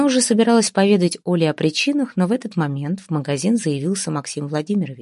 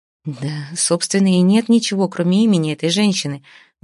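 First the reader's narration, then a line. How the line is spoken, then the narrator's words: Sighing. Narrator (Russian): вздохнула Оля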